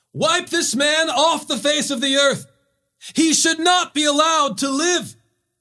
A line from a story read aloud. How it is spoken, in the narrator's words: they raised their voices, shouting